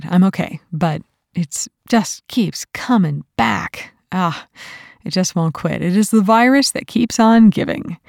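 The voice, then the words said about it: Slightly rough voice. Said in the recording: “You can hear my voice is a little rough.”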